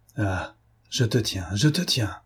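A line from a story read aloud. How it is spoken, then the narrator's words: Triumphant murmur. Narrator (French): murmura-t-il, triomphant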